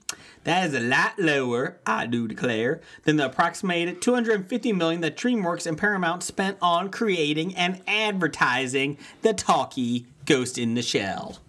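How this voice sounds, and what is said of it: Put-on Southern accent. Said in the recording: “That was my southern accent.”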